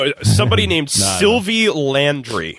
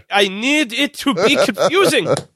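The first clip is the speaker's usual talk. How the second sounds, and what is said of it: Attempted French accent sounding German. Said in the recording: “my French accent is German ... it both sounded German”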